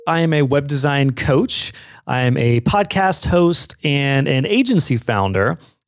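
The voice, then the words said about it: Smooth radio-style voice. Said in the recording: “a fantastic radio voice”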